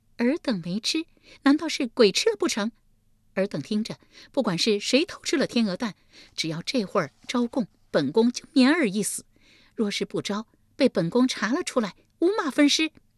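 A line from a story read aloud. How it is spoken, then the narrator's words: Cold sneering laugh. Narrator (Chinese): 立即冷笑一声道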